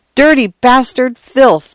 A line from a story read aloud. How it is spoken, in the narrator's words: Arthur cried